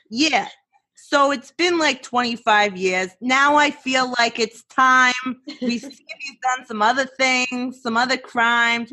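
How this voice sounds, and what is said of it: Imitated Staten Island police officer voice. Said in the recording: “I could see the Staten Island cops being like ... Thank you for your on-spot impression.”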